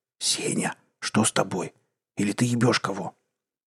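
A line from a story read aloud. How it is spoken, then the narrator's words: Whispered. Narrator (Russian): прошептал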